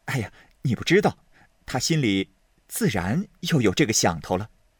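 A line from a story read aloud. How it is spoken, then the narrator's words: Laughing. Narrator (Chinese): 宝玉听了，点头笑道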